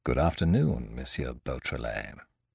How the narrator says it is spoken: say, in a low voice

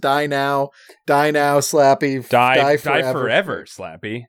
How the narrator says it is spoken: Wally shouts

